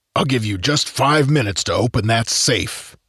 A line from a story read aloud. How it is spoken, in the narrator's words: growled in a distinctive musical baritone voice